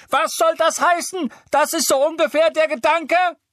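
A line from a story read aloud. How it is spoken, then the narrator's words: Shrieking. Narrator (German): Weasley kreischen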